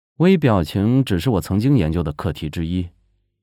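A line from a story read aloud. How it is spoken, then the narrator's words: Cool, detached. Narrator (Chinese): 沈月淡淡的道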